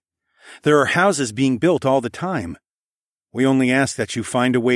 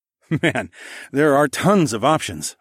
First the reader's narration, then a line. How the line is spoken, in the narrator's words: I chuckled